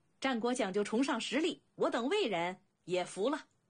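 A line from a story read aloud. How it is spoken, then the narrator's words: Loud voice. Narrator (Chinese): 一人高声道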